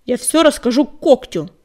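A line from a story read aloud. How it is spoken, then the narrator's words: Excited shout. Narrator (Russian): возбужденно крикнул частокол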